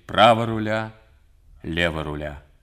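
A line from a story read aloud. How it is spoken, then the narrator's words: Firm voice. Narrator (Russian): твердым голосом говорит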